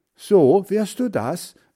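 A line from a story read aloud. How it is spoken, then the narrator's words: Called out. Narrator (German): rief Hans Frieder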